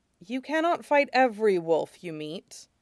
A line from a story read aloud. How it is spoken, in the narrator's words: Zevran bites back another sigh as he says